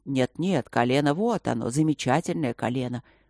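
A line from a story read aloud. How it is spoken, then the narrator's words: Miserable voice. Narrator (Russian): несчастным голосом проговорил магистр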